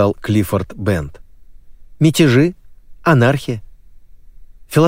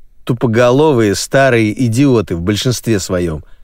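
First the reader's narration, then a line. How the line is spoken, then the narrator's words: Plain. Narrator (Russian): сказал Брюстер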